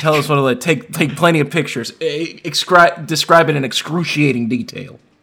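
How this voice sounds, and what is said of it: Southern gentleman accent. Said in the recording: “I'm getting this Savannah Gentleman accent in here a little bit for us.”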